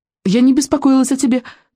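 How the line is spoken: Hurried. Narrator (Russian): торопливо добавила она

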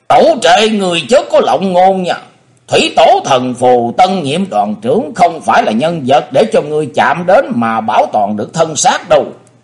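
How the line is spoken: Thunderous roar. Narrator (Vietnamese): Kình Ngạc tướng quân gầm lên như sấm động

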